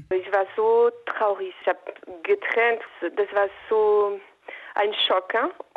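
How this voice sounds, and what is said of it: French accent in German. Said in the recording (German): “schöner französischer Akzent.”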